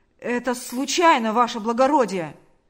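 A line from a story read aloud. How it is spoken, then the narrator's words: Shouting. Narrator (Russian): закричал он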